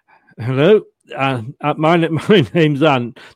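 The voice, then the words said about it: Imitates another person's voice. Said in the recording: “did you know I do impressions here ... it's a double impression here of Ant ... My first part of my impression is this.”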